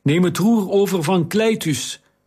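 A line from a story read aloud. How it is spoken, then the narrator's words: Shouting. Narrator (Dutch): schreeuwde Taharka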